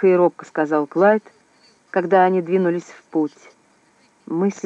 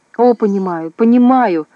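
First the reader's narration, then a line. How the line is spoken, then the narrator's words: Hysterical exclamation. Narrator (Russian): истерически воскликнул Клайд, потеряв почти все свое самообладание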